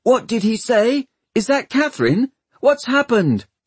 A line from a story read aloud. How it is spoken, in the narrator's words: shouting